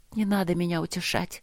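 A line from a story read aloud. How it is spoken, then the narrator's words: Whisper. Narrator (Russian): прошептала она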